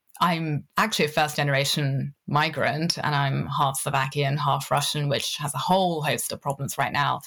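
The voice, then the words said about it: British accent. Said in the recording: “I sound really British.”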